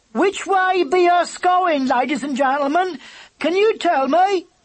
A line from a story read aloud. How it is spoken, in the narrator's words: she cried